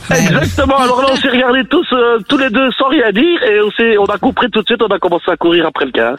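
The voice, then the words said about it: Genuine Belgian French accent. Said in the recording (French): “on a un vrai accent belge”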